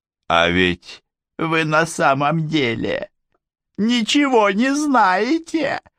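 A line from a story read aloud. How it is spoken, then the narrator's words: Triumphant chuckle. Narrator (Russian): Он торжествующе хохотнул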